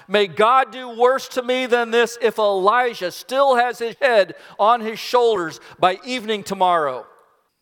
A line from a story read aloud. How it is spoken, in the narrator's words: In fury, he shouts out